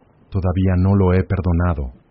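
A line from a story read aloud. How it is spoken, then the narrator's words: Plain. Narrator (Spanish): dijo ella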